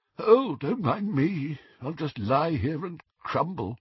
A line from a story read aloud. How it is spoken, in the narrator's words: one of their disembodied heads, it moaned faintly